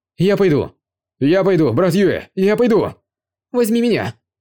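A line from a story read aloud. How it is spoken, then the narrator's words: Crowd shouting loudly. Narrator (Russian): громко закричали жители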